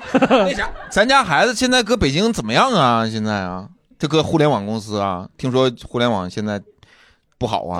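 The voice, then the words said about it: Northeastern Chinese accent, motherly character. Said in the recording (Chinese): “东北口音的河南母亲”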